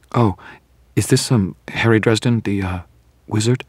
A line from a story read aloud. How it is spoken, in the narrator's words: Her tone was apologetic, as though she were terribly afraid she would be insulting me